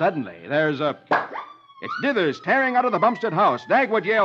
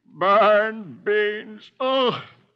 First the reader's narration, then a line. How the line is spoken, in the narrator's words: Dithers buries his face in his arms and moans